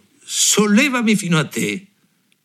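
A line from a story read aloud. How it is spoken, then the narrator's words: Shouted. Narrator (Italian): gridò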